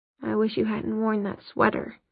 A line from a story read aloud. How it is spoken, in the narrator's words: Jace muttered